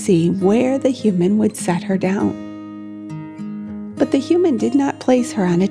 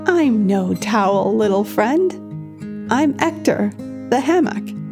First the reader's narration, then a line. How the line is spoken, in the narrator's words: The towel chuckled and replied